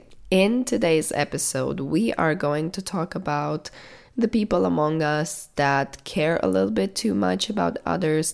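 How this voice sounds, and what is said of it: Sick-sounding voice. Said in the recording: “I'm a little bit sick. I bet you can tell by my voice,”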